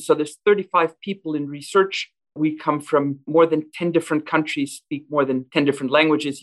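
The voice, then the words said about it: Non-local foreign accent. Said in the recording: “my accent, that's not the typical Alberta accent.”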